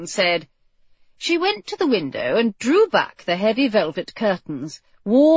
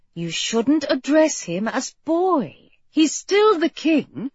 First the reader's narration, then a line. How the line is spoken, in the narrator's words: Bess admonished warmly